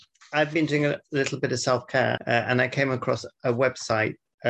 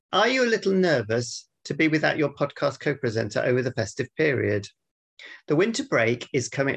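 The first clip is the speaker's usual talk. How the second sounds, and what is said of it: Expressive reading with exaggerated rise and fall. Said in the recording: “Notice the feeling I'm putting into this. It's not monotone. ... Got rise and fall. ... Rise and fall. It's like a story mountain.”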